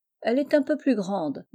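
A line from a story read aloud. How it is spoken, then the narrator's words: Plain. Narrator (French): dit Lord Melville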